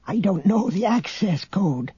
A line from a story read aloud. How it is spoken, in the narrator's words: the old man whispered conspiratorially